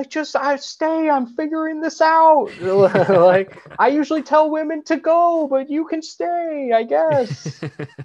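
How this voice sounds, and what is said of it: Imitates another person's voice. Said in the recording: “That's a pretty good Owen Wilson. ... That's a good impression”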